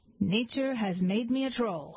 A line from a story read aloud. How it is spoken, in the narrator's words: he said